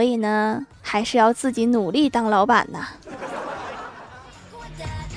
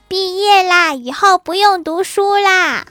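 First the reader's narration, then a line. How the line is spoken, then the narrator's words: Excited little boy. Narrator (Chinese): 幼儿园大班的小男孩兴高采烈地说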